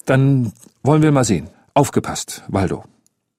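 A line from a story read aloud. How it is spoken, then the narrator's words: Stammering. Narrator (German): stotterte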